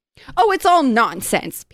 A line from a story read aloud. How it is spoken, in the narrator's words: Peter said impatiently